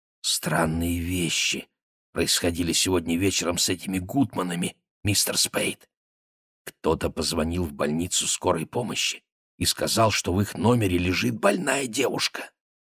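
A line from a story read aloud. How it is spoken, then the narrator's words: Whispered. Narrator (Russian): прошептал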